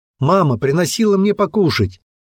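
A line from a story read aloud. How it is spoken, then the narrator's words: Loud child's shout. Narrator (Russian): крикнул мальчик, чтобы все его услышали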